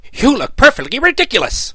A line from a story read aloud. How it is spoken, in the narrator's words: replied the dog in a rather harsh voice